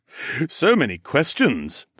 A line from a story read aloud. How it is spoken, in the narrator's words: the god chuckled